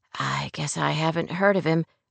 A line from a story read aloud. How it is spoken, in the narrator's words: Rory murmured